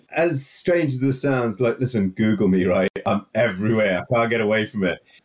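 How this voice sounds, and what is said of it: Heavy Welsh accent. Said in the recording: “you've got a nice heavy Welsh accent”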